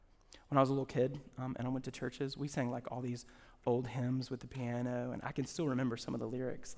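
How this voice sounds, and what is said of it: Usual voice. Nothing is said of it.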